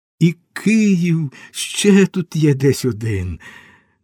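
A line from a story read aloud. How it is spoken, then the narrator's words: Laughed. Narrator (Ukrainian): Григорій засміявся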